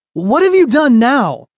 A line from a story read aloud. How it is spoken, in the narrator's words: he yelled